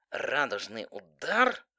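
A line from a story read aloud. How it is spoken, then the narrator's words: Through clenched teeth. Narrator (Russian): процедила сквозь стиснутые зубы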